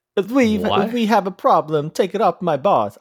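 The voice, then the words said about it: Put-on Italian accent. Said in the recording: “I was trying to do my best Italian accent.”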